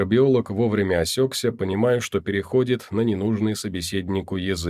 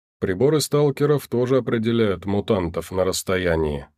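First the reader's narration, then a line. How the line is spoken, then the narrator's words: Plain. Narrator (Russian): сказал Алексей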